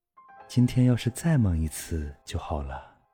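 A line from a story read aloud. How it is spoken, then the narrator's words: Sighing. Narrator (Chinese): 他又叹道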